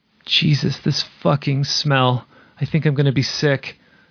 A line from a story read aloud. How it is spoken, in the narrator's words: Lindsay groans